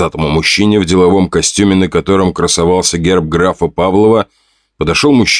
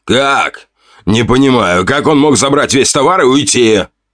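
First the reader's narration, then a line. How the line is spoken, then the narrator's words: Potbellied man shouting. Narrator (Russian): Выкрикнул пузатый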